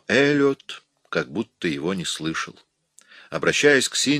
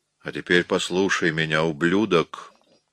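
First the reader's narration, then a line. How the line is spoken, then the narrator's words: Furious growl. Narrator (Russian): зарычал Уин, выведенный из себя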